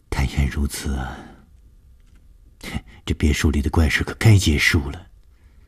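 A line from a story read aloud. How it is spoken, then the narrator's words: Sighing. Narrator (Chinese): 舒子音听完了以后叹了一口气说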